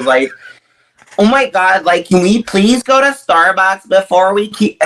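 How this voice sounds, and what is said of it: Nasal American girl accent. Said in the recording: “American accent, like, uh, it's very basic ... I can do like the American girls ... very, very nasally”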